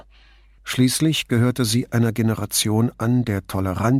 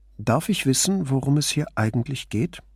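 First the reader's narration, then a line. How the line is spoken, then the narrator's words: Calm and curious. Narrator (German): Sie klang ruhig, neugierig, kein bisschen argwöhnisch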